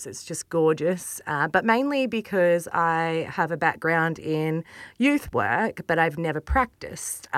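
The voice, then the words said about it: Slight Maori New Zealand accent. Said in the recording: “I detect an accent. ... Maybe a Maori accent, a little bit.”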